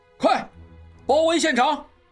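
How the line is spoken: Loud. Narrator (Chinese): 望石大声道

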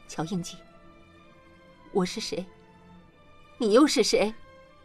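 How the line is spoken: Trembling, mixed emotions. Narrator (Chinese): 莲花心中五味杂陈，颤声道

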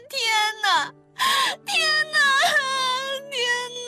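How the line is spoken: Desperate loud wailing. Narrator (Chinese): 邱莹莹绝望大声哭嚎

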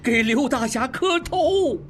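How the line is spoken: Shout. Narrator (Chinese): 二当家的喊

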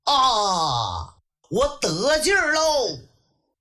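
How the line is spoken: Loud shout. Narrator (Chinese): 程咬金高喊一声

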